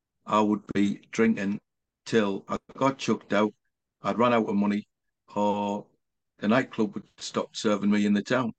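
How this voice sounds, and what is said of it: Northeast English accent. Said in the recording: “I hope you can understand me Northeast accent, by the way.”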